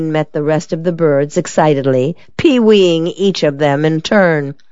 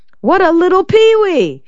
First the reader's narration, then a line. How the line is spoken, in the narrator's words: she shouted